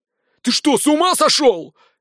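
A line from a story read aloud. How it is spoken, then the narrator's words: Yelling in strained voice. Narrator (Russian): не своим голосом заорал Радзивилл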